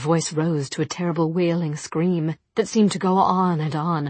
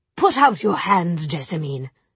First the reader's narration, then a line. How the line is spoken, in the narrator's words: said Charlotte coldly